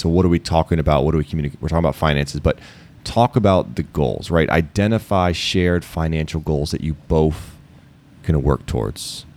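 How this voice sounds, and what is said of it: Baltimore accent. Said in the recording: “Did I just say both with an F? ... that's my Baltimore. ... My B-more, Baltimore accent coming through. ... That area accent.”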